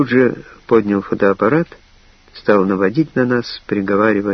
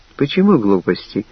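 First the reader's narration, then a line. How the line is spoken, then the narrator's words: Soft objection. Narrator (Russian): мягко возразила Лена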